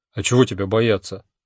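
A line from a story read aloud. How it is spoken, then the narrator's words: Plain. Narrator (Russian): спросил было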